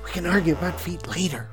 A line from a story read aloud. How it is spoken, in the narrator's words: Rue hissed